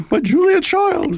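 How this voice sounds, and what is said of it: Imitates another person's voice. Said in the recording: “my Julia Child imitation”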